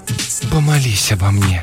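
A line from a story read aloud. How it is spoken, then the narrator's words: Breathy exhale. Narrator (Russian): выдохнула Нэнси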